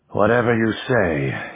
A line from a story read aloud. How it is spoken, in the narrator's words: he said wearily